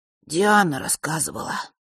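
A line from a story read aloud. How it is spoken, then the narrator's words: Sighing. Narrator (Russian): сказал Ник и вздохнул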